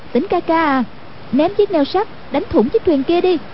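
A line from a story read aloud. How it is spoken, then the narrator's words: Calling out. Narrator (Vietnamese): kêu lên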